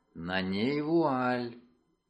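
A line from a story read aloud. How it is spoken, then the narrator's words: Whisper in ear. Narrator (Russian): Миссис Пиотти прошептала мне на ухо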